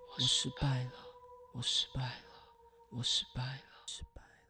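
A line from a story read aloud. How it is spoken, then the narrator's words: Muttering to self. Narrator (Chinese): 喃喃自语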